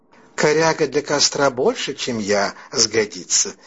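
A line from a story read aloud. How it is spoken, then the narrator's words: Calm woman laughing. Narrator (Russian): засмеялась спокойная красавица Дороди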